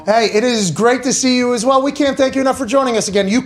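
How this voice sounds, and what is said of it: Pennsylvania regional accent. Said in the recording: “your accent, it sounds like my entire family... from Plum, Pennsylvania... my whole family sounds like you”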